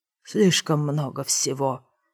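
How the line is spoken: Through gritted teeth. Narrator (Russian): сквозь зубы заметил Марка

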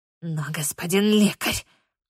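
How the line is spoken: Hiss. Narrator (Russian): зашипела она в присущей ей манере

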